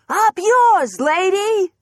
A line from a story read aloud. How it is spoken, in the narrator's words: Clara shouted